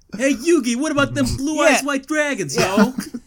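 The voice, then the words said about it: Joey imitation, thick New York accent. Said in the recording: “Real thick New York accent... He also had a thick New York accent... That is unironically what he sounded like.”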